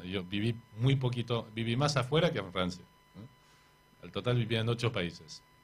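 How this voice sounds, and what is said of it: French accent speaking Spanish. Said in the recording (Spanish): “ese tono francés ... ese acento no, lo voy a perder nunca”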